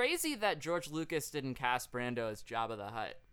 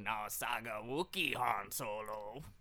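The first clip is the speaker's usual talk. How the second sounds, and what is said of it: Imitates another person's voice. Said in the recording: “I could do a Marlon Brando impression”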